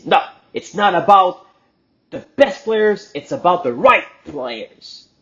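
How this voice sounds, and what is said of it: Clumsy accented English. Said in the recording (French): “Je suis avec un accent tout croche”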